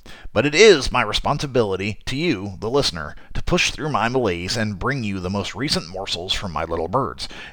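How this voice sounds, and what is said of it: Raspy, congested voice. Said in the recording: “I'm recovering from the latest attack of the sniffles ... I hope my raspy voice doesn't drive you away.”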